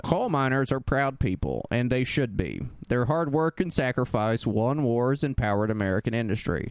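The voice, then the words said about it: Dan Rather impression. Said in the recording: “do a Dan Rather impression”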